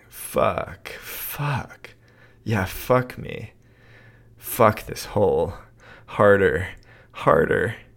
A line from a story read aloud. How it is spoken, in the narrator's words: He was moaning